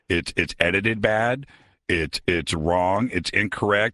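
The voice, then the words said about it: Imitates another person's voice. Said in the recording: “my best Ebert impression”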